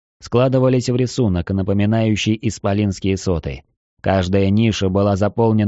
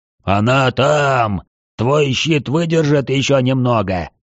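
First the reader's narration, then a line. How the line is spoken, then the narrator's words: Hoarse question. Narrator (Russian): хрипло спросил Свечкин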